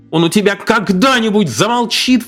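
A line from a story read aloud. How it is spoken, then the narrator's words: Sudden desperate exclamation. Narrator (Russian): внезапно с отчаянием воскликнул папа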